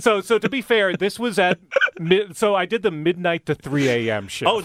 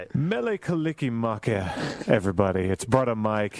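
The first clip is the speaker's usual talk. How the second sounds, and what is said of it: Smooth public radio host voice. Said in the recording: “That's my public radio voice.”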